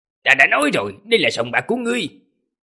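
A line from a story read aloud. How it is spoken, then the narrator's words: Angry. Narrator (Vietnamese): Tề Tứ gia tức giận mà nói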